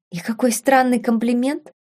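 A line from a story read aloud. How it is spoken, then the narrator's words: Muttering. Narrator (Russian): пробормотала Беладонна, отшатываясь теперь от доктора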